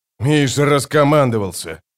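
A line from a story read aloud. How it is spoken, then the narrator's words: Growled. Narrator (Russian): прорычал капитан охраны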